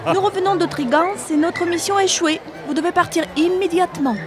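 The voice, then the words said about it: Canadian French accent. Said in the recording (French): “Nous faisons partie des services secrets du Canada ... ça s'entend à votre accent ... j'adore votre accent”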